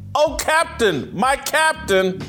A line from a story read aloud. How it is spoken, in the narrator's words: The boys staged an impromptu classroom insurrection, shouting